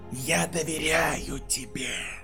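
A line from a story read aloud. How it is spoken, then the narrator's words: Hissing. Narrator (Russian): прошипел он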